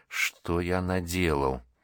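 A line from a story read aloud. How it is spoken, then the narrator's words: Voiceless whisper. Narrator (Russian): одними губами прошептал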